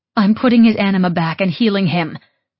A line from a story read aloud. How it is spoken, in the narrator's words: I shouted at her